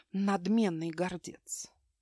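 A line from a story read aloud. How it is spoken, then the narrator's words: Stepmother's quiet whisper, smirking. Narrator (Russian): Тонкие губы мачехи скривились в подобие улыбки, а потом она тихо прошептала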